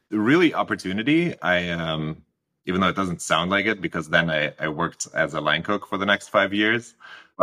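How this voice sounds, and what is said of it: Heavy foreign accent. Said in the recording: “there's a heavy accent that everybody's going to hear”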